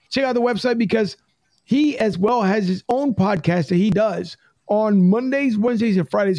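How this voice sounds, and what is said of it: Hoarse, strained voice. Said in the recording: “I'm losing my voice”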